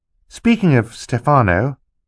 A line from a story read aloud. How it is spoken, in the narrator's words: said timidly